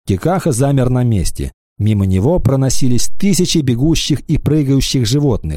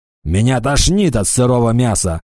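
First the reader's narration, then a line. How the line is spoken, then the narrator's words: Grumbling orc. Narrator (Russian): заворчал орк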